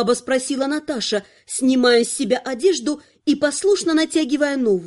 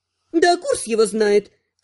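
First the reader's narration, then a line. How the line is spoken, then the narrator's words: Displeased snort. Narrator (Russian): с неудовольствием фыркнула ведьмачка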